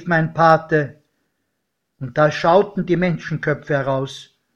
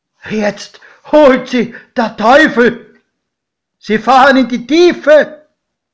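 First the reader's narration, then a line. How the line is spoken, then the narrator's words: Godfather shouting. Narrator (German): schrie mein Pate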